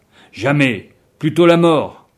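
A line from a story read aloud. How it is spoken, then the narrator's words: Group exclaiming. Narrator (French): s'exclamaient-ils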